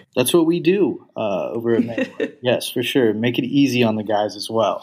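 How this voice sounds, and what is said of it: Texas accent. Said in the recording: “the Texas accent comes out a little bit too ... I'm a sucker for an accent”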